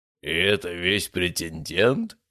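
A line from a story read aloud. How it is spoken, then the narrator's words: Booming. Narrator (Russian): прогремел он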